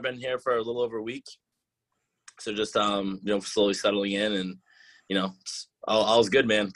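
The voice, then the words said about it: Mild Boston accent. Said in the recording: “the Boston accent ... I personally don't think it sounds as thick as when I hear, like, my parents or, like, my friends talk back home ... I can still hear it”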